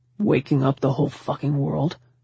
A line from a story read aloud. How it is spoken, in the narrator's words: grumbled